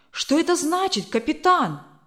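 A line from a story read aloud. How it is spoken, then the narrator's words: Exclamation. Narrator (Russian): воскликнул Брюстер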